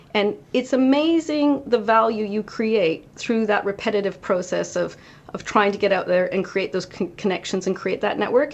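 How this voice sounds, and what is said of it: North American accent. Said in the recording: “you can tell from my accent, a bit of a North American trait”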